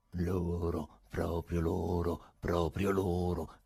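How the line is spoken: Goat-like singsong. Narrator (Italian): canticchiò il lungo personaggio a quadretti con voce da caprone

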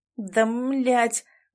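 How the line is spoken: Exhaled through teeth. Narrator (Russian): выдохнул он сквозь зубы

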